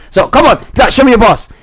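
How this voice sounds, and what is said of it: Raised, higher-pitched agitated voice. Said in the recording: “when my voice got elevated and started going up a bit octave”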